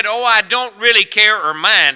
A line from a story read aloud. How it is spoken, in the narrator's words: he says